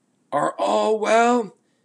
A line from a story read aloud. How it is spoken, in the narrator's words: within shouting distance called out